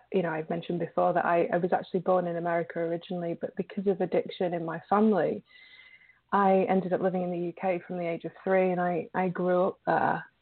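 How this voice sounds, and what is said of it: British accent. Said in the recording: “your beautiful British accent”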